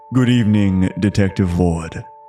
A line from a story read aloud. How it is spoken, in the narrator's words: he replied, his voice a smooth baritone that seemed to resonate in the air